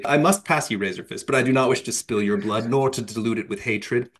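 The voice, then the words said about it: Put-on accent for a character. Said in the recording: “I'm using my accent, obviously.”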